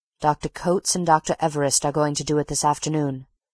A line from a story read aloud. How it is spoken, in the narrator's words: replied Mitchington